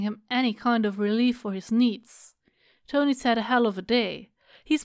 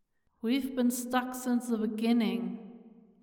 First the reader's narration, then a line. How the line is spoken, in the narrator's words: Tony says quietly, and even quieter, etched with something that might be anger